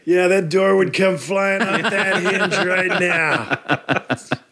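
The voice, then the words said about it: Imitates another person's voice. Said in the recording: “my Robert Patrick impression ... That's good. That's good. It's intimidating.”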